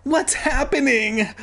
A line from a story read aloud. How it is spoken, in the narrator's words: I cried, yelling out